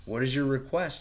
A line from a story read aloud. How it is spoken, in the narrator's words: he asked